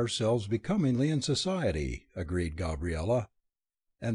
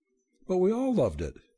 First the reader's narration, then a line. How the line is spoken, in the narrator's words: she exclaimed